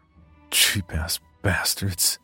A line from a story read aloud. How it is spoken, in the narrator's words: he muttered under his breath